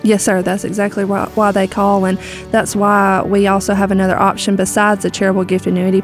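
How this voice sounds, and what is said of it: Southern American accent. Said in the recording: “talk in a Southern accent like you do”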